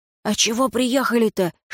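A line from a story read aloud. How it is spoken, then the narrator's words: Group whispering. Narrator (Russian): шептались смерды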